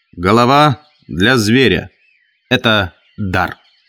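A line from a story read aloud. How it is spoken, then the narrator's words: Loud. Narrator (Russian): Джек сказал громко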